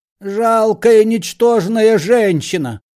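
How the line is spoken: Shouting. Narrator (Russian): кричал Паниковский

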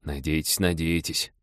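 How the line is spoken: Muttering. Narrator (Russian): пробормотал Олег

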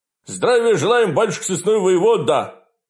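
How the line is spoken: Young men barking in unison. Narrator (Russian): Гаркнули двое молодых безбородых бояр, дружно

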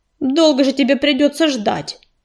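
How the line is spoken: Snorting. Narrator (Russian): фыркнул ежевика

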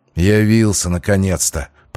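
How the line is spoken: Grumbling. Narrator (Russian): проворчал он

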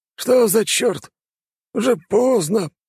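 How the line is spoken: Grumbling. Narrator (Russian): проворчал он

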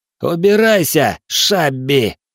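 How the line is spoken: Growled. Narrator (Russian): прорычал коммодор

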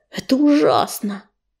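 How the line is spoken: Stunned, forced-out words. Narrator (Russian): ошарашенно выдавил Бурый

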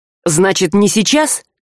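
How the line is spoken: Angry interruption. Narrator (Russian): зло перебил его Саврянин

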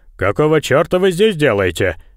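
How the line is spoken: Spiteful. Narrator (Russian): Корбетт злобно произнес

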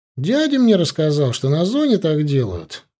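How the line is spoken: Sullen mutter. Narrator (Russian): пробурчал Мишка, поняв, что я его точно не хвалю

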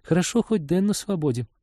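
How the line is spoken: Sighing. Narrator (Russian): вздохнула Полина

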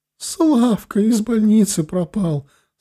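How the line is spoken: Forced out through sobs. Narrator (Russian): сквозь рыдание выдавила она

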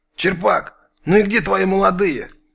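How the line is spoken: Nervous hiss. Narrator (Russian): нервно прошипел кто-то

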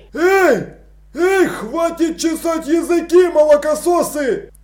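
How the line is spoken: Yelling. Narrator (Russian): заорал Страппи

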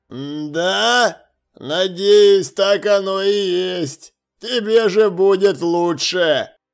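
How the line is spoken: Lazy drawl. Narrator (Russian): Лениво протянул стражник

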